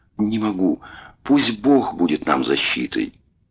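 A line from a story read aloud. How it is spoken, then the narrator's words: Barely audible. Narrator (Russian): она промолвила чуть слышно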